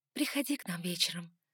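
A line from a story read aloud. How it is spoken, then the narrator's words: Whisper. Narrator (Russian): шепнула я Лукасу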